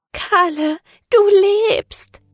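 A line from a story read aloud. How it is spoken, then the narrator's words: Sobbing. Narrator (German): schluchzte sie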